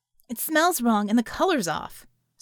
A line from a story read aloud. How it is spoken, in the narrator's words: Scope snarled